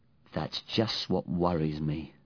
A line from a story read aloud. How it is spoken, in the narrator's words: sighed P